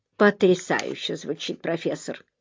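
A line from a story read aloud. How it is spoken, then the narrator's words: Mumbled reply. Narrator (Russian): пробормотал в ответ Эллери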